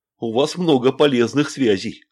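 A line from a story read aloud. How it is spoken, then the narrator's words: Smirking. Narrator (Russian): хмыкнул Рощин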